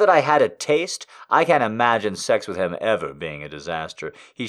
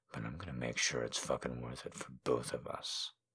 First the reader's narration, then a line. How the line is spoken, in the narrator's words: murmurs